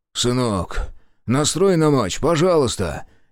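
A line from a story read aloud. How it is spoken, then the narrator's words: Father's indistinct mumble. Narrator (Russian): Невнятно бормочет отец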